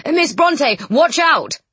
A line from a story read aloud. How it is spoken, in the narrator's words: shouting